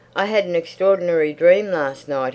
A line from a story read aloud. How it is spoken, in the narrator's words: he shouted